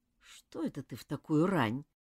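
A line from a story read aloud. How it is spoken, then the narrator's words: Sleepy question. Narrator (Russian): сонно спросила Нора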